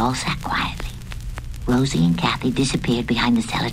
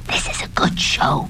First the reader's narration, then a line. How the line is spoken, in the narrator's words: Pudgy whispered